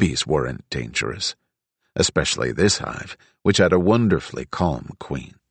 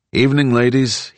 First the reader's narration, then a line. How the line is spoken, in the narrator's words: called out